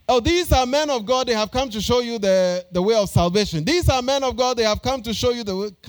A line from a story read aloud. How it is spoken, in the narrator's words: this girl will confess this and follow Paul and Silas and Luke and the band of these people and be shouting